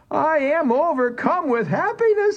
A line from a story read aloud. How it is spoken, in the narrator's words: he cried